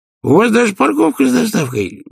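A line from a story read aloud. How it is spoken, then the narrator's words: Exclamation. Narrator (Russian): воскликнул Хватай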